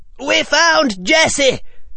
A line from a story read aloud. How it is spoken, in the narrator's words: the Weasley twins blurted